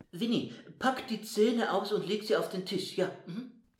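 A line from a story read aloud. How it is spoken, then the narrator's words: Calling out. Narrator (German): rief er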